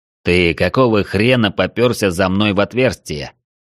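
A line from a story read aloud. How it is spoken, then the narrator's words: Snort, then spoken. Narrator (Russian): Арчибальд хмыкнул и произнес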